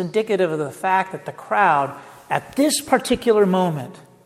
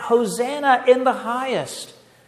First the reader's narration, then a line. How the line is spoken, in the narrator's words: the children greeted him, they cried out